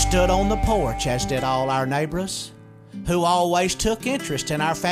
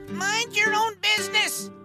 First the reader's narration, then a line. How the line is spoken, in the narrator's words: we heard Grandma shout